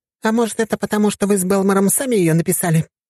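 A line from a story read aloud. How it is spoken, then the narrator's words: Exclaiming woman. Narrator (Russian): воскликнула Мира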